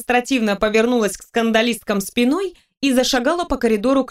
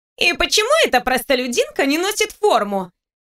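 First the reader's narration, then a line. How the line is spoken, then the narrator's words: Shrill question. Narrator (Russian): Визгливо поинтересовалась ее подруга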